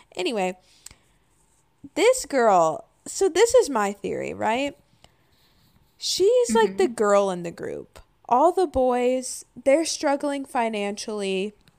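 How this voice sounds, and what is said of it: Tired voice with vocal fry. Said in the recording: “I'm sorry for the vocal fry, by the way. I'm just a little tired.”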